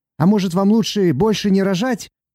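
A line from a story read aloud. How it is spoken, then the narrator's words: Sudden shout. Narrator (Russian): один из зевак вдруг крикнул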